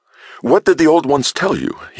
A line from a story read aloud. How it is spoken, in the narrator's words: asked eagerly